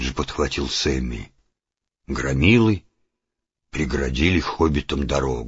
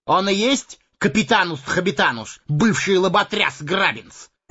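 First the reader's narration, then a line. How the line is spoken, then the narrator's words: Bellowing bandit. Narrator (Russian): гаркнул желтолицый бандит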